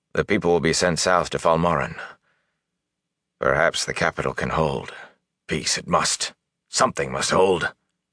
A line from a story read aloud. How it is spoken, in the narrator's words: he said quietly